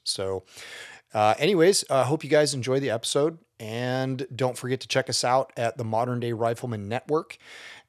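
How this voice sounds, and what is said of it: Hoarse voice. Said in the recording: “excuse my voice ... yelling to run the line kind of makes your voice a little hoarse”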